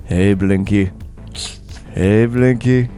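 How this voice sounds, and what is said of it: Very soothing voice. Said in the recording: “in a very soothing voice,”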